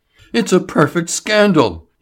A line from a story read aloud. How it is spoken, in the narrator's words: he cried